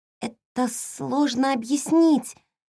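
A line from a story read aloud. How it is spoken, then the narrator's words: Uncertain, girl. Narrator (Russian): неуверенно заговорила девочка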